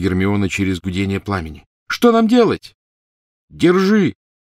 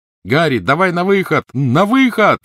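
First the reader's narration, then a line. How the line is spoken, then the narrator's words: Shouted. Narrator (Russian): крикнул Рон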